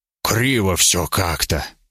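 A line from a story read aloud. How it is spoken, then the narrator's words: Hissing in pain. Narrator (Russian): прошипел я, морщась от боли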